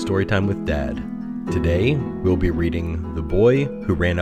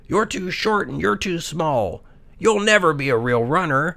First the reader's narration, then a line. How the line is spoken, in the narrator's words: would yell